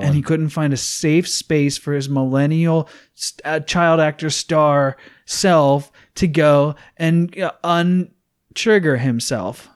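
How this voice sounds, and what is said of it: Overly opinionated Gen Xer voice. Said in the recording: “that's my overly opinionated Gen Xer who hates millennials impersonation.”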